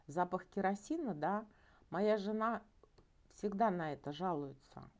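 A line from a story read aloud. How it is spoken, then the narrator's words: Laughing. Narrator (Russian): он засмеялся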